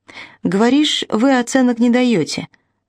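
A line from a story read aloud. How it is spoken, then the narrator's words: Hesitant, uncertain. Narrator (Russian): начал он неуверенно, словно еще не знал, чем закончится предложение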